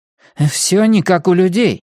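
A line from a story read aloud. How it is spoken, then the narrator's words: Exclaiming. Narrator (Russian): воскликнул Иларий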